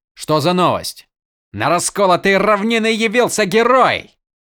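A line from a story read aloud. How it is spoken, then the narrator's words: Joyful yell. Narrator (Russian): радостно заорал солдат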